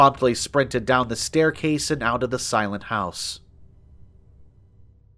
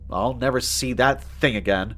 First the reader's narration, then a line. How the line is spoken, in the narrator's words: I muttered